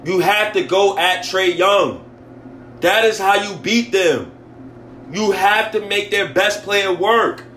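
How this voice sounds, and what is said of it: Loud, emotional, angry screaming. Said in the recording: “My fault, Knicks fans, if I'm screaming on this pod, man. But I'm just so emotional right now ... I'm pissed off ... I'm mad, dog.”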